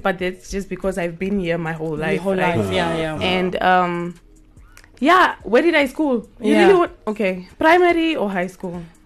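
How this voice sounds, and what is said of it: Strong Namibian accent. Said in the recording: “I have apparently a very strong Namibian accent”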